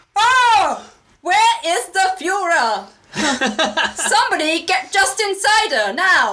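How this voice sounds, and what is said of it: Shouted mock German accent. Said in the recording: “I loved your German accent ... It was just you shouting normal. ... I don't know how to do a German accent.”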